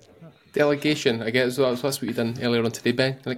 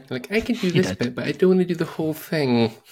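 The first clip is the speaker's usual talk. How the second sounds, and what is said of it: Impression of a friend's voice. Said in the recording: “Great impression. ... That is exactly how he sounds.”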